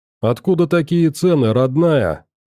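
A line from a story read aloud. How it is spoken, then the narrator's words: Indignant wailing. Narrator (Russian): возмущенно запричитал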